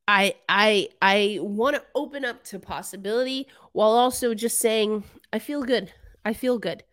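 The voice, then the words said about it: Congested, sick-sounding voice. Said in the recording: “this cold that you can probably still hear in my voice”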